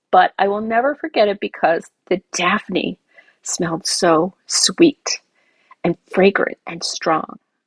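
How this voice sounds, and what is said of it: Choked-up, emotional voice. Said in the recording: “getting choked up. My voice.”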